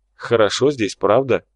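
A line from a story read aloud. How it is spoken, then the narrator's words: Snorting chuckle. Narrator (Russian): хмыкнул Пхот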